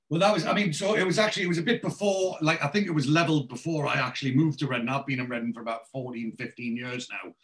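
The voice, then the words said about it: Geordie accent. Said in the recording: “As you can tell by my accent, I'm originally a Geordie”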